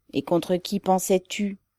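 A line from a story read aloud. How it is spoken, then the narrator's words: Gloomy question. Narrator (French): demanda Ribine d'un ton morne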